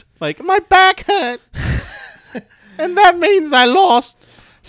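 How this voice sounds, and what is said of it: Imitates another person's accented voice. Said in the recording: “That's my impersonation of every NXT UK women's... It's the accent.”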